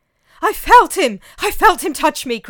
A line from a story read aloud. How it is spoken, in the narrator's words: cried the man